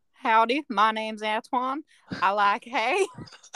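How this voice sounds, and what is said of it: Put-on American Southern accent. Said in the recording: “Can you do an American accent or no? ... I can do a bit of a Southern accent, but awful. ... That's really good.”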